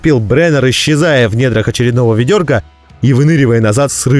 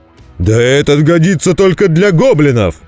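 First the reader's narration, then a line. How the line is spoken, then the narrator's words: Slurred drunken roar. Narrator (Russian): проревел Вульфгар с заметно заплетающимся языком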